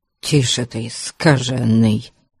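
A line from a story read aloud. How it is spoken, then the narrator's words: Grumbling. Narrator (Russian): проворчал тот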